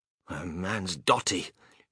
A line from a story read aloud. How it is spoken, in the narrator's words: muttered Grandma Josephine